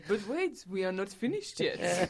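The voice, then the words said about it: Put-on French accent. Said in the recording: “which I have to say in a French accent”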